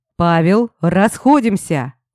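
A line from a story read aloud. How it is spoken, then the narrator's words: Loud shout. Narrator (Russian): Выкрикнул громко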